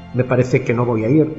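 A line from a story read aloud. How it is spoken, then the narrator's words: Plain. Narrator (Spanish): dijo ella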